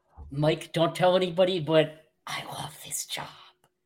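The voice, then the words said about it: Exaggerated stage whisper. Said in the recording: “the exaggerated stage whisper”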